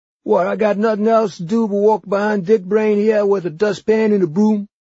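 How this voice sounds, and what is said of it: Numb New Orleans working-class accent. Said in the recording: “He had a New Orleans working-class accent like someone whose voice box had been injected with Novocaine.”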